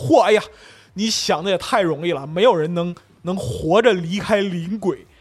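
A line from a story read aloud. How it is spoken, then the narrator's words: Breathless, wounded voice. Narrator (Chinese): 塞克特趴地上先喘了一会儿，起来呸吐了口血，说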